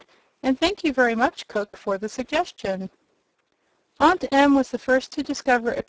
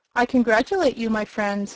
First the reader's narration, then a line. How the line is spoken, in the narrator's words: he said, speaking in a cheerful voice